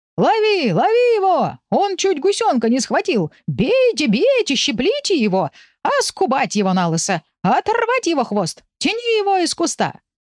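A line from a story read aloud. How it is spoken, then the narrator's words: Screaming geese. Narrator (Russian): вопили гуси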